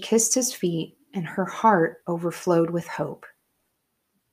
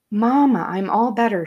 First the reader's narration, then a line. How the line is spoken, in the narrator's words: she cried, with her old familiar smile lighting her face